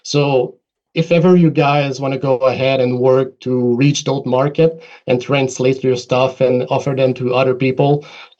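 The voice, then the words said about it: French accent in English. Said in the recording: “it sounds from my accent that we're all French speakers”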